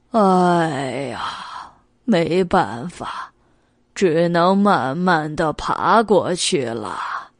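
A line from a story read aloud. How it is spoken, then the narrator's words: Sighing, resigned. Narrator (Chinese): 蜗牛挺身望了一眼远处高高的柜台，叹了一口气道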